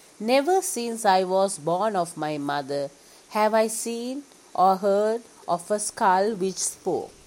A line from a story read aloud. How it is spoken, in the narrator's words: The king went silent and then said slowly